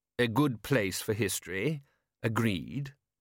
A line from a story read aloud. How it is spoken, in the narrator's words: said the patrician solemnly